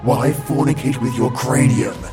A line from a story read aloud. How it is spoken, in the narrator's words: I snarl